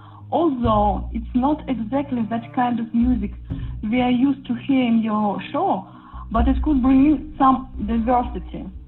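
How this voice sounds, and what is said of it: Russian accent. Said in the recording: “another Russian ... I hope you enjoyed our accent.”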